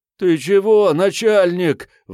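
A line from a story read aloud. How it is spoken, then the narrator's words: Desperate wail. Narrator (Russian): взвыл беглец, зажатый в угол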